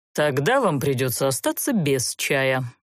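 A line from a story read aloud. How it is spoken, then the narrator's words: Indignant grumble. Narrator (Russian): проворчал возмущенный такой наглостью Занбар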